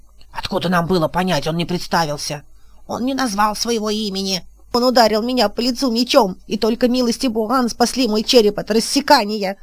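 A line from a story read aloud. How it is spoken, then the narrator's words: Loudest wailing, troll. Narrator (Russian): вопил громче всех зеленый тролль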